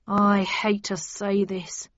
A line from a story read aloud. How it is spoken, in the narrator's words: began sadly